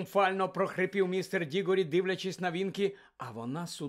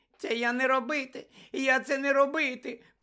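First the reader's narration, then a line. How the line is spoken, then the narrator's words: Terrified squeak. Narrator (Ukrainian): пропищала вона, закотивши очі від жаху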